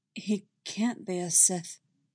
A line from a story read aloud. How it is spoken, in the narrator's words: Anakin says softly, trying to keep his voice low so that he doesn't upset his children